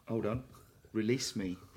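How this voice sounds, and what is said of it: Put-on West Country accent. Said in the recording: “With a full West Country accent.”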